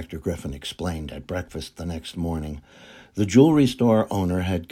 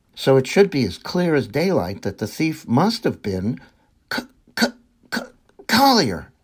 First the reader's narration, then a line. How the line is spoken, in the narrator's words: John Jericho yelled